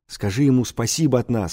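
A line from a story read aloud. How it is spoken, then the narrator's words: Whisper. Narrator (Russian): шепнул мне Степка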